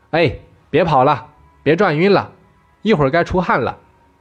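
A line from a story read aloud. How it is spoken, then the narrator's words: Mother speaking loudly. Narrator (Chinese): 他的妈妈在那里大声地说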